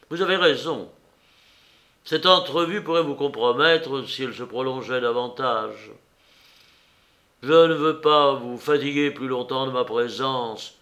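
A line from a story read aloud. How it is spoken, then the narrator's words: Firm voice. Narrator (French): dit-il d'une voix ferme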